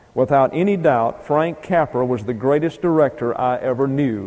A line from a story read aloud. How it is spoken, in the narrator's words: he once said